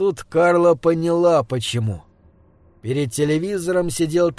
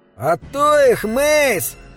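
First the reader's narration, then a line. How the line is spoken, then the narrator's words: Boy howling. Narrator (Russian): взвыл мальчишка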